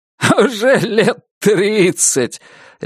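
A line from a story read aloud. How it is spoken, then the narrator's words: Loud laughter. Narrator (Russian): Люсьен захохотал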